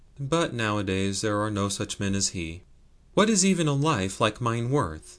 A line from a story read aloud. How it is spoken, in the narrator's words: Then with a sigh, the speaker added